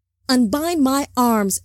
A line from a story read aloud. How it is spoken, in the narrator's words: Zohar yelled, twisting at the constraints